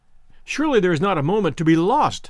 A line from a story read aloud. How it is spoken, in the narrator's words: I cried